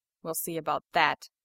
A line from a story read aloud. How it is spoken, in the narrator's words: Tony mutters